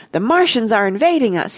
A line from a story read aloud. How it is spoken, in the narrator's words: he cried